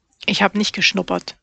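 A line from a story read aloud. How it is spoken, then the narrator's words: Grumbling. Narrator (German): brummte Nalani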